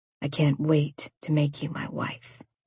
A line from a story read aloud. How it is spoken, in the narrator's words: he whispered in my ear